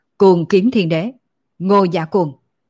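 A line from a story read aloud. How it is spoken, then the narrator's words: Earth-shaking shout. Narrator (Vietnamese): Mạc Thiên Cơ kinh thiên động địa hét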